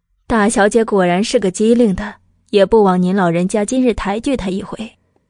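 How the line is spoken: Laughing. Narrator (Chinese): 桂嬷嬷笑道

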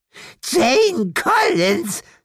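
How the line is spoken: Hateful hiss. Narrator (German): zischte hasserfüllt

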